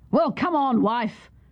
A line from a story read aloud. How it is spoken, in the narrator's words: the soldier cried